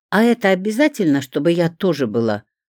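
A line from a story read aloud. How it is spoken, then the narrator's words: Indignant question. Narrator (Russian): возмущенно спросила она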